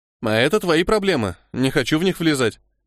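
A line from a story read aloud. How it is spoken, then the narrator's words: Snorting. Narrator (Russian): хмыкнул Мора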